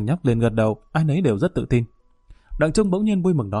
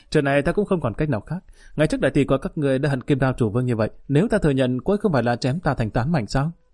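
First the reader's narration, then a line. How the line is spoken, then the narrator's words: Hearty laughter. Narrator (Vietnamese): Lý Kỳ bật cười ha hả nói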